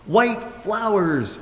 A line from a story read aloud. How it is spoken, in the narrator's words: screamed the happy clown, and all the rest joined in